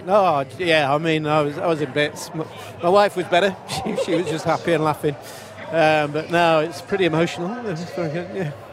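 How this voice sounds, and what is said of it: English accent. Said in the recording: “We can hear the accent as well. Of course, he was born in England.”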